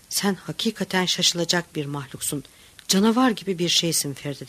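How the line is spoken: Plain. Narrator (Turkish): dedi

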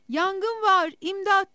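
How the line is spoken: Shouting. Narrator (Turkish): diye bağıracaktı

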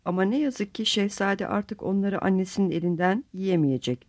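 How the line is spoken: Forced calm voice. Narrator (Turkish): Sakin bir sesle konuşmaya gayret ederek Kalfa'ya

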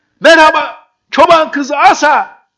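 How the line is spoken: Shouted. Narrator (Turkish): diye bağırdı

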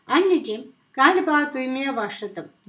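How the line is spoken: Shouted. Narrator (Turkish): diye bağırdı

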